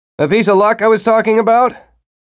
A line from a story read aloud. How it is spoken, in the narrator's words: he called loudly